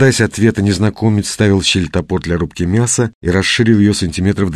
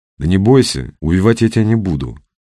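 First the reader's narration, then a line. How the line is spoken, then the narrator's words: Calm. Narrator (Russian): произнес он спокойно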